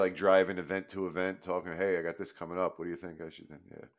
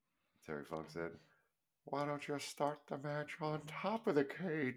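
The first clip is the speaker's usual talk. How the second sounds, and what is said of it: Exaggerated high-pitched impression voice. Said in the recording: “talk like a little Nicky? ... I'm exaggerating it, but that was my Funk impression ... it's little Nicky with helium”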